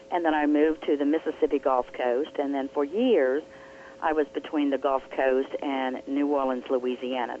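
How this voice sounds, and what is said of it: Southern American accent. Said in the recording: “you do have an accent... You do have a Southern accent... I do have a Southern accent uh, Tuesday, but it's not really a Georgia accent... you're hearing a blend of all places”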